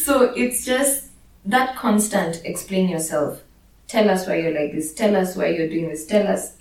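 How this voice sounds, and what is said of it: Kenyan English accent. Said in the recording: “I speak like a Kenyan very happily”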